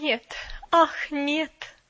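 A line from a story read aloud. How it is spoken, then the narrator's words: Mournful moan. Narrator (Russian): опять тоскливо простонала мисс Кэрю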